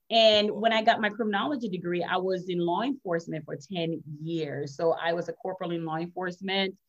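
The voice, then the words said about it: Jamaican accent. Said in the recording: “I'm originally from Jamaica. I'm Jamaican and Chinese... the accent you're going to hear is originally from Jamaica”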